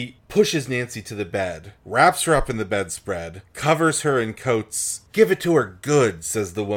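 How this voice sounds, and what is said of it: Usual voice. Nothing is said of it.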